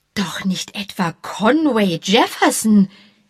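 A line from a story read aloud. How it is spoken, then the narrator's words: Called out. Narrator (German): rief Mrs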